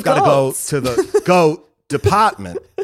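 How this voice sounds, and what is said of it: Imitates another person's voice. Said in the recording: “my bad Christopher Walken impression ... It's not great”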